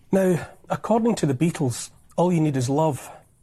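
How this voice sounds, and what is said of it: Scottish accent. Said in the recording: “I just love the Scottish accent. It just adds gravitas to anything.”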